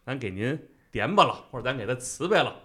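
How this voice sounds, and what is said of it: Beijing dialect speech. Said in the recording (Chinese): “用北京话说”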